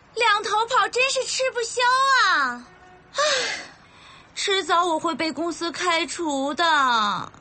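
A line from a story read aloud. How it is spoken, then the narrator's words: Shouting. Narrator (Chinese): 朝着张远大叫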